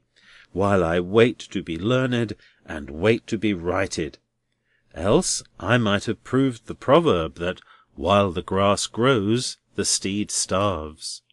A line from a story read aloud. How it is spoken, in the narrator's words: sighed Neville, half wearily and half cheerily